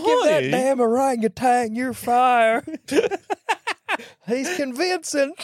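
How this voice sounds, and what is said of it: Baloo bear voice, southern twang. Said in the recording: “Why are you adding a southern twang?”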